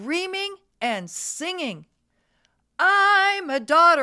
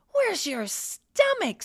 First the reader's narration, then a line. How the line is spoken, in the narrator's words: Someone gasped